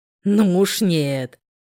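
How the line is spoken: Growling. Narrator (Russian): Прорычал

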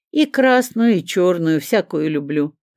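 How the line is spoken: Laughing. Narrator (Russian): рассмеялся Леонид

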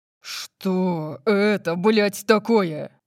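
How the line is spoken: Roared. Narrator (Russian): Взревел он

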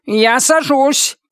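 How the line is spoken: Robot cat shouting, straining. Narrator (Russian): крикнул робокот, пытаясь выправить срывавшийся в штопор флагер

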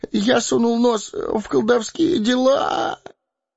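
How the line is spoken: Whimpering. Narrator (Russian): Захныкал Пипин

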